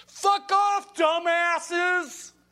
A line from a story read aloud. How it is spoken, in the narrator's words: someone drives by and screams